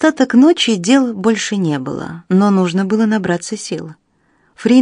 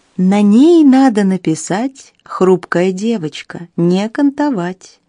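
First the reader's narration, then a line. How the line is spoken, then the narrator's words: Tender singsong. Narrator (Russian): В самом конце вагона кто-то ласково пропел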